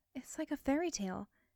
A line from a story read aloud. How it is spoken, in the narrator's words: she sighed